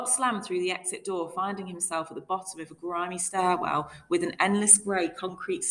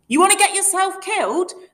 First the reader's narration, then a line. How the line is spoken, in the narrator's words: cabbie barked